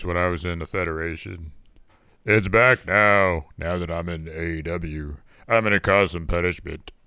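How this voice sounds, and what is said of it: Exaggerated deep wrestler voice. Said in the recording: “The deep voice... like Punishment Martinez”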